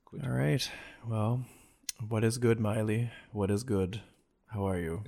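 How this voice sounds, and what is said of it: Flat, low-energy monotone delivery. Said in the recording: “Can we have a little more energy? ... I was doing it purposefully monotone.”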